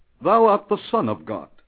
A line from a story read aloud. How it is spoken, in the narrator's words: cried out in the presence of many